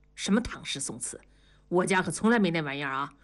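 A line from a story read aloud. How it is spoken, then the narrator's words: Hushed scolding. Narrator (Chinese): 同志 低声地训斥道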